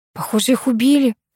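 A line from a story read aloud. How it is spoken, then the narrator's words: Whispered. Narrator (Russian): прошептала я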